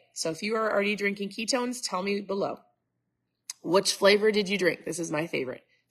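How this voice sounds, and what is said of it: Stuffed-up, congested voice. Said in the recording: “I sound super stuffed up.”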